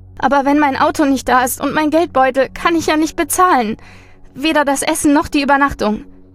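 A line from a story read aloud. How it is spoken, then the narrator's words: Sniffling whimper. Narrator (German): Sie schniefte noch einmal und wimmerte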